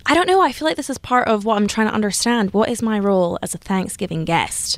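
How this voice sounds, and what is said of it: Scottish accent. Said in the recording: “has an accent originally from Scotland”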